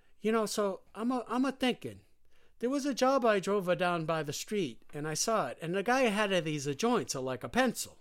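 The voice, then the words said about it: Poorly done accent imitating another person. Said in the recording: “That's a terrible accent, by the way. ... That's how Jimmy talks.”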